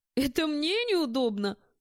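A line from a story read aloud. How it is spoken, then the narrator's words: Snort. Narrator (Russian): фыркнул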